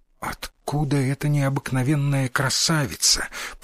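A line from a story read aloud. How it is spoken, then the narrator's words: Whisper. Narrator (Russian): прошептал сын Микадо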